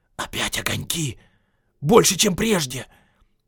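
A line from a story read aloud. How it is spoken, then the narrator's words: Loud whisper. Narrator (Russian): Дори, стоявший на часах, громко шепнул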